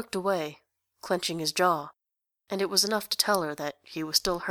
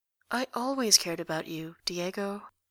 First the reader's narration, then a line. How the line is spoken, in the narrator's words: said gently